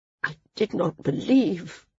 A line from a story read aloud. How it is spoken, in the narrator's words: she muttered weakly